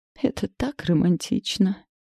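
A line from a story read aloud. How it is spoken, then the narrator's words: Dreamy mother's voice. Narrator (Russian): мечтательно произнесла мама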